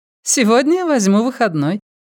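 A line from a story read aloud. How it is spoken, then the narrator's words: Laughing. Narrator (Russian): засмеялась Ванита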